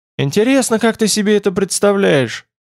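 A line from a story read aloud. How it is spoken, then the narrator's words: Strained, forced out. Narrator (Russian): выдавил наконец Тмор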